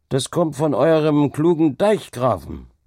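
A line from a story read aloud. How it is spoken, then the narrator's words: Called out. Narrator (German): rief einer von den Gestleuten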